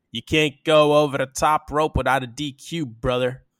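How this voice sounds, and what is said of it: Mixed New York and Southern accent. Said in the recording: “accent was that? ... I missed a New York accent and a Southern accent.”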